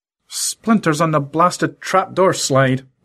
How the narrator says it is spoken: muttered Lorenzo

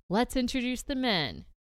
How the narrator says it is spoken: at the same time, they both yell

